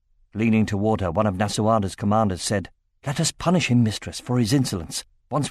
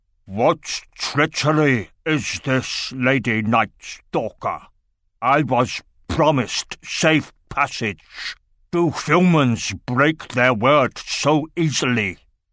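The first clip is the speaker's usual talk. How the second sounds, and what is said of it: Thick guttural growling accent. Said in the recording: “growled in a thick, guttural accent”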